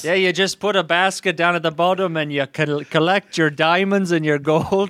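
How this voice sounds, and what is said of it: Slightly Irish put-on accent. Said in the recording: “you're going slightly Irish”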